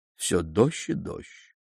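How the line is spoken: Drowsy mutter. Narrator (Russian): Пробормотал он еще в полузабытии

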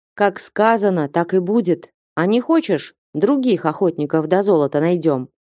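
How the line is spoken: Calm reply. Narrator (Russian): спокойно ответил Стуколов

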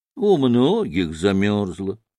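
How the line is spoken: Calm, sententious reply. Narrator (Russian): спокойно и сентенциозно промолвил в ответ мужик

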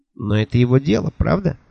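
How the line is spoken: Cold question. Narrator (Russian): холодно спросил Куруш

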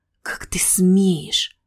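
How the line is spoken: Hissing. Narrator (Russian): прошипел Чайор

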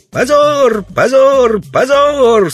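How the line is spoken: Passionate children shouting. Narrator (Russian): со страстью закричали детишки

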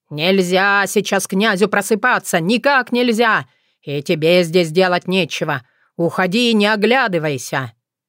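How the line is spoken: Loud persistent shout. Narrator (Russian): боярин не унимался, громко выкрикнув мне вслед

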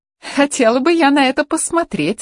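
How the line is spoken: Laughing. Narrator (Russian): рассмеялась Анна, не удержавшись

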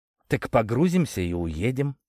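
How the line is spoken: Plain. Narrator (Russian): сказал Игорь

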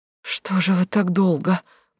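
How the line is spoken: Wheezing voice. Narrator (Russian): просипела она

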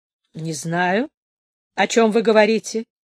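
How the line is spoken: Muffled low bass. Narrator (Russian): сказал Ваня своим глуховатым баском

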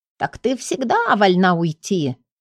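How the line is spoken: Snide inner voice. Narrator (Russian): ехидно напомнил внутренний голос

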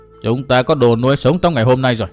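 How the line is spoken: Cold old man. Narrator (Vietnamese): Lão cất giọng lạnh lùng nói

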